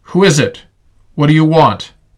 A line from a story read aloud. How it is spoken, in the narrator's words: A man's voice yelled out